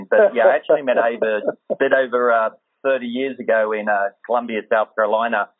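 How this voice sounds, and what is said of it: Australian accent. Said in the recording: “the accent, it gives away about being Australian”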